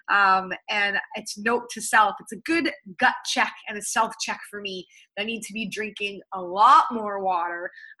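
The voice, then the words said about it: Slightly hoarse, strained voice. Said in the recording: “I sound a little bit not like myself ... I am actually starting to lose my voice a little bit here”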